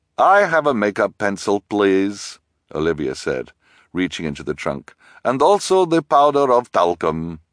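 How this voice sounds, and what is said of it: Character speaking in put-on accent. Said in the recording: “You don't have to use your accent right now”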